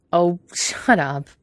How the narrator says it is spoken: Quentin said, laughing

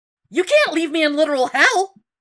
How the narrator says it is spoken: Evan shouted

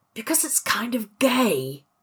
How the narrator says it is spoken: he whispered

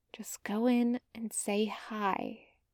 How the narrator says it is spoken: whispered to herself

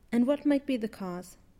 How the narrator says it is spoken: Fraser hastily asks

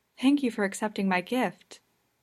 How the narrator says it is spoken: in a quiet, breathless voice

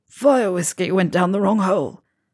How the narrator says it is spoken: Ron recovered his voice enough to croak out

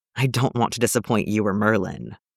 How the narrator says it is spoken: With a huff, Gwen muttered

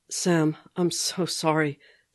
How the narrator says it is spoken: Steve was saying, his voice breaking

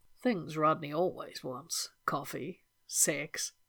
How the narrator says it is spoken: said in a low, amused voice

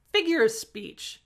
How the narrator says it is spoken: the man barked

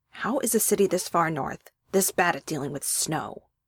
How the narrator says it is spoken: Elliot grumbled

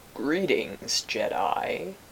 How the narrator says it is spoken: he rumbled at last

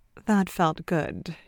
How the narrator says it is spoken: she murmurs

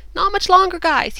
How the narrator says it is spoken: he called out to them

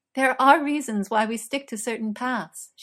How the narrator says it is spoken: she told him, laughing

